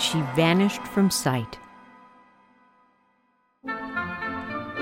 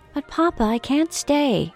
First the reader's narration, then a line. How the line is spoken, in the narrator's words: Belle said sadly